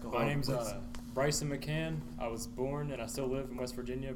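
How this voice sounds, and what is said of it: Country accent. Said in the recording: “Change your accent, bro. You sounded really country.”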